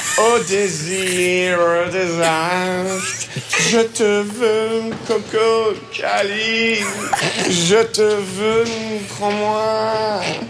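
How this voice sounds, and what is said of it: Sings in put-on nasal English accent. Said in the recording (French): “l'accent anglais ... Pourquoi l'accent anglais? ... ça manquait de prestance ... j'ai pincé du nez”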